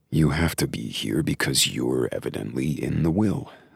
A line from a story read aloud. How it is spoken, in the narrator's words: said softly, trying not to get annoyed